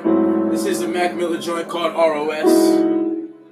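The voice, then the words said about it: Announcer-style radio voice. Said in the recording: “That was my perfect radio voice for you guys.”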